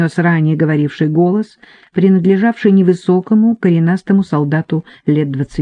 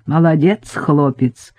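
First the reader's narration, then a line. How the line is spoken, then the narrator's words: Laughing. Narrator (Russian): еще раз засмеялся Марченко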